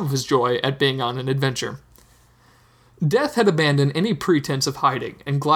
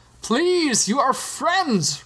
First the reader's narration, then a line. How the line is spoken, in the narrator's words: Rincewind shouted